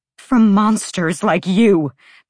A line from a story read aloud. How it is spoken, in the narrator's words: Bryce spat